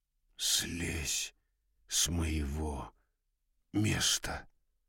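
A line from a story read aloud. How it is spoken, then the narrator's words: Whisper. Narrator (Russian): прошептал он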